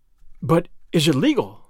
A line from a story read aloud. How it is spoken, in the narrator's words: I gasped